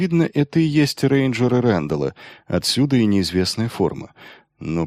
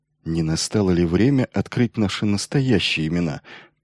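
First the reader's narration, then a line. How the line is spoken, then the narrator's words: Muttering. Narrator (Russian): пробормотал свое предложение Майлзу Грегор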